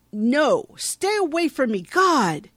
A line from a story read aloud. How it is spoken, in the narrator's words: she yells